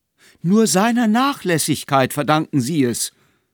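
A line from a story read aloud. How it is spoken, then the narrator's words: Landlady calling out again. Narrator (German): rief die Wirtin nochmals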